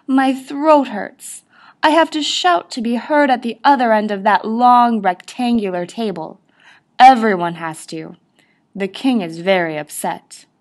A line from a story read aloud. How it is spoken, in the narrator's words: groaned